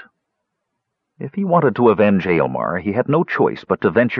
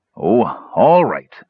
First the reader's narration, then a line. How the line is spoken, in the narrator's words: he snarled at last